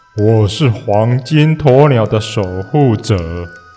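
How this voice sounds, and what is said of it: Deep, low monster voice. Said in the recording (Chinese): “他用低沉的声音说”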